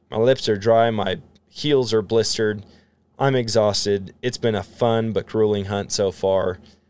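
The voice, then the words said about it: Hoarse, tired voice. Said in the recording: “my voice is starting to get hoarse.”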